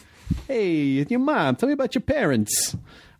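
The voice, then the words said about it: Put-on gangster accent. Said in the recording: “I still gotta have like a gangster accent.”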